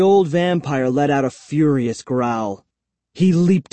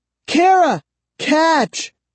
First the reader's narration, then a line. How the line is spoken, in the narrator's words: I screamed